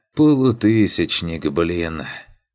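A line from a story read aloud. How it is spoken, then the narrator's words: Wry snort. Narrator (Russian): Хмыкнул про себя я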